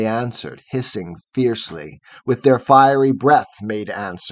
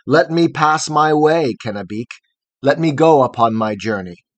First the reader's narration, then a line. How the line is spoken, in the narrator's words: the fearless Hiawatha cried aloud and spake